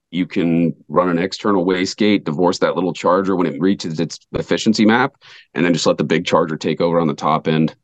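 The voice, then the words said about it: Hoarse, strained voice. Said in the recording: “I'm losing my voice, ... happens every time this year with that stupid pollen”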